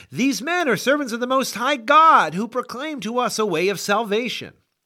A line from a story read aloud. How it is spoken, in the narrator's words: she cried out